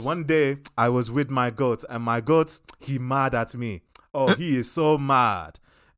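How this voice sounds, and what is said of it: Put-on African accent. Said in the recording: “If your whole bit is your accent ... when a story is told from uh, African accent”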